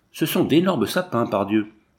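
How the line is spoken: Exclaimed. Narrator (French): s'écria un autre

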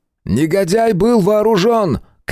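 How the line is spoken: Shout. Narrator (Russian): крикнул он

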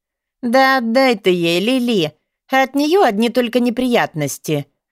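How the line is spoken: Tired voice. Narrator (Russian): Устало произнес кто-то еще

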